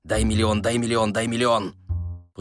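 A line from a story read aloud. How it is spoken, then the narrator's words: Beggar's rapid mutter. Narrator (Russian): нищий быстро забормотал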